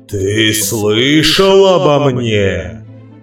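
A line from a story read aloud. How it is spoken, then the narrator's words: Thundering, hot-breathed. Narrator (Russian): Прогремел Гефесту с горячим дыханием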